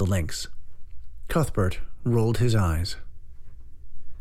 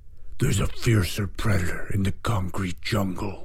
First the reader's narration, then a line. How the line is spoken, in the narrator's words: growled the Lynx